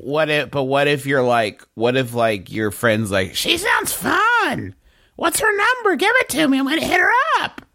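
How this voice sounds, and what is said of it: Cartoonish woman's voice impression. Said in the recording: “You can't do an impression of any woman that sounds like that ... That is the embodiment of the cartoon Kathy ... you just did a Kathy”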